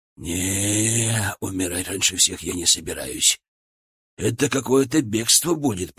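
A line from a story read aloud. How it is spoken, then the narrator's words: Whispered. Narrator (Russian): произнес он шепотом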